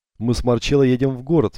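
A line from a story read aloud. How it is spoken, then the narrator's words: Cheerful. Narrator (Russian): весело сообщила она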